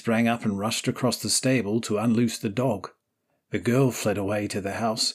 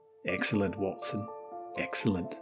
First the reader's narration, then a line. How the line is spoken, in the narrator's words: murmured my companion